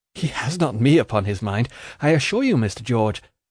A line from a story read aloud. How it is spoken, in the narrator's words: said I, laughing